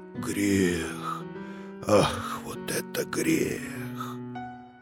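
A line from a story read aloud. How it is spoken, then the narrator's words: Whisper. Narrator (Russian): он шептал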